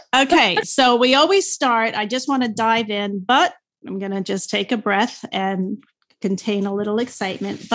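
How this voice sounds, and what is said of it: New York accent. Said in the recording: “I love the accent. It reminds me of my, you know, my childhood, my mother from New York City ... Oh, you mean the New York thing?”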